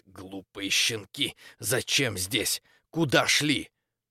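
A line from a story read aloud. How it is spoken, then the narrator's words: Displeased snarling hiss. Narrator (Russian): прошипела недовольно, скалясь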